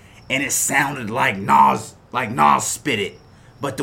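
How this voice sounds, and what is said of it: Usual voice. Nothing is said of it.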